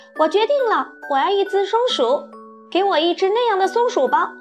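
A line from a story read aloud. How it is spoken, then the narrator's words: Sudden exclamation. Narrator (Chinese): 维卢克索尔特忽然叫起来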